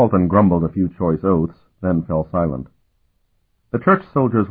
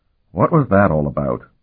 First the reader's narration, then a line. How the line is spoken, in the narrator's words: Carlton demanded in a low voice